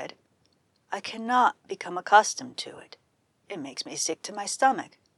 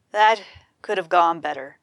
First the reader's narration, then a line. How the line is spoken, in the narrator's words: I said